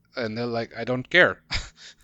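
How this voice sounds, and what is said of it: Bad attempted Swedish accent. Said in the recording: “That was a terrible accent... it wasn't identifiably Swedish, that's for sure.”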